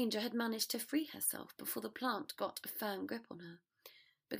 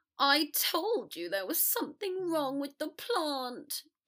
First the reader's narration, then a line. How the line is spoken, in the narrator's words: Draco whined